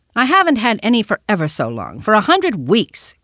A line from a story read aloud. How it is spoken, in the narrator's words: cried the boy